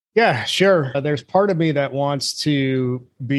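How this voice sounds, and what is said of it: Usual voice. Nothing is said of it.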